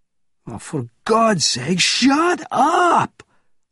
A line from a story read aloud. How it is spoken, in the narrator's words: roared Krepkin